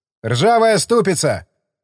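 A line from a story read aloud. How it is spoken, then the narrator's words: Laughing shout. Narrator (Russian): крикнул Колесников, смеясь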